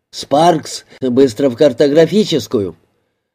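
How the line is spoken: Shouted. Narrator (Russian): крикнул

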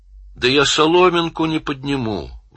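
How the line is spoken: Sigh. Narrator (Russian): вздохнула

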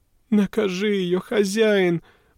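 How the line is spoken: Pleading. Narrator (Russian): взмолилась

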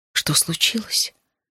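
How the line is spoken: Whisper. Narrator (Russian): шептал он

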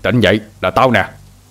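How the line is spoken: Shouting again. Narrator (Vietnamese): Hai Đèn lại quát lên

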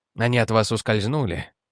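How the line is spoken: Quiet question. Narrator (Russian): спросил тихо

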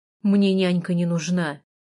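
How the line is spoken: Rude, gruff. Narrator (Russian): грубо сказал он

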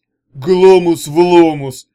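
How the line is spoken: Shouted incantation. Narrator (Russian): выкрикнул Гунио

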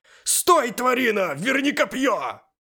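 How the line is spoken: Shouting. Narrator (Russian): Я кричал в пустоту

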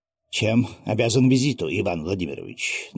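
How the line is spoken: Tense questioning voice. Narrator (Russian): напряженным голосом спросил дворянин

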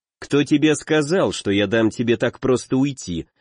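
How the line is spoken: Cold reply. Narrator (Russian): холодно ответил

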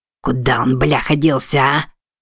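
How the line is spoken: Muttering. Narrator (Russian): бормоча

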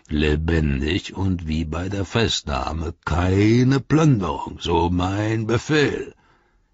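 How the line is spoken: Gruff speaker, plain. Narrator (German): sagte der Knurrer

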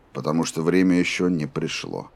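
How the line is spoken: Even voice. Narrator (Russian): ровным голосом ответил Роланд

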